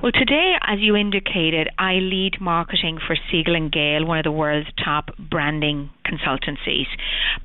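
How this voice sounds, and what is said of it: Irish accent. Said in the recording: “As the accent probably portrays, I was born in Ireland”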